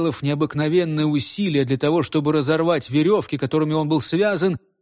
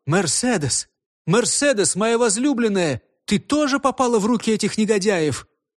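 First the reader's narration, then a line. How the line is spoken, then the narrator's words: Desperate horrified shout. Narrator (Russian): Дрожь ужаса пробежала по его членам, и он с отчаянием закричал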